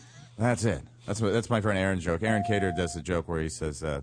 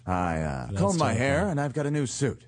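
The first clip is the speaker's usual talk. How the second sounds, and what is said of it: Mitt Romney impression, surprised-sounding. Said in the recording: “we're going to Mitt Romney ... as long as you make everything sound like it's you're surprised by it ... does a killer impression of Romney”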